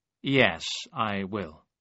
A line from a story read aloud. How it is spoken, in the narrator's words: Ambrose answered slowly